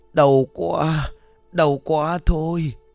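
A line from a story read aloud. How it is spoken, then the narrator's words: Moaning in pain. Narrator (Vietnamese): Ông Sơn rên rỉ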